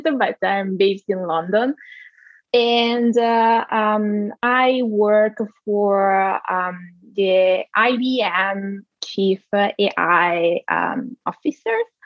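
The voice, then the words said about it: Italian accent. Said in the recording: “I'm Italian, as you can probably hear from my accent”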